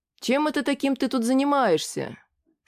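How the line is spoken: Very gentle question. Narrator (Russian): спросил как можно более мягко

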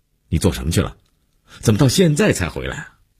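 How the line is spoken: Angry abrupt question. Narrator (Chinese): 姐夫一脸温怒，劈头就问

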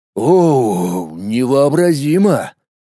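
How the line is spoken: Exhaled words. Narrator (Russian): выдохнул Колян

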